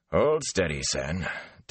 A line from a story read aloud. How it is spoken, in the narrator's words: Tam growled